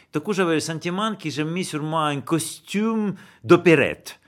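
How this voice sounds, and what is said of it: Strong musical Russian accent. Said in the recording (French): “votre accent qui est très musical aussi ... cet accent énorme ... quelqu'un d'origine russe”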